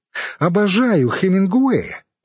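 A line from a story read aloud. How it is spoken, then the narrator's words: Exclaiming around a straw. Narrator (Russian): воскликнула Светлана, зажимая накрашенными губами соломинку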